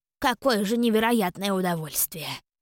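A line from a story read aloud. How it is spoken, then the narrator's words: Mumbling. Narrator (Russian): пробормотала Клара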